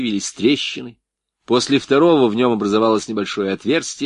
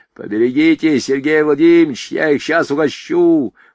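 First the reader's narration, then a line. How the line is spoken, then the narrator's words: Hoarse, right at ear. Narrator (Russian): хрипел у него над ухом Блохин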